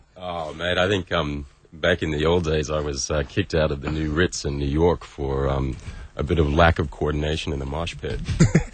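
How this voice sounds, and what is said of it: Deep resonant radio voice. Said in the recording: “Ooh, he's got that voice. ... That's a radio voice.”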